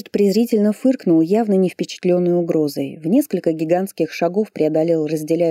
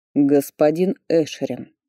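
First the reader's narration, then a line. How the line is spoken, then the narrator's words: Cold. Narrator (Russian): холодно произнес Фарлей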